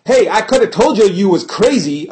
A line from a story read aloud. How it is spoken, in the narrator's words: I yelled